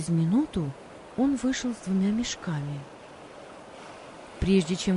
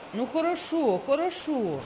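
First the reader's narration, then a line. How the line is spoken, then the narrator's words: Shouted. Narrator (Russian): крикнул Антон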